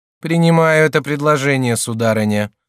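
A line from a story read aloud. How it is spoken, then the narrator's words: Dry curt tone. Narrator (Russian): сухо сказала Екатерина Медичи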